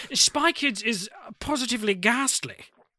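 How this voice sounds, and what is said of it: Posh British accent. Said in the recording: “You guys do a British accent. ... Go posher. ... I want to hear you go posh ... Very good.”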